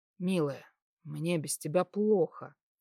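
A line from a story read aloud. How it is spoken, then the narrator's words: Quiet. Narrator (Russian): тихо сказал я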